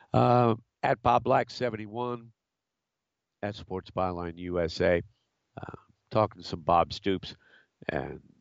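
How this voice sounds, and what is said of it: Weak, recovering voice. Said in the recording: “I'm slowly recovering from this summer cold. My voice is getting a little stronger”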